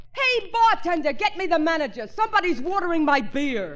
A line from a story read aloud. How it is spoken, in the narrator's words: He yelled